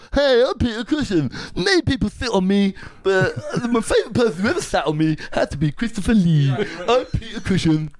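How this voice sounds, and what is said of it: Imitates another person's voice. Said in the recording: “That's a really good impression. ... Yeah, that's good.”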